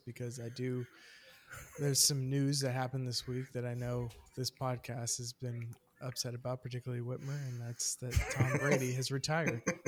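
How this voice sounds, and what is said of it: Somber, subdued tone. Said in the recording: “I am starting in a somber tone, as you can tell by my voice”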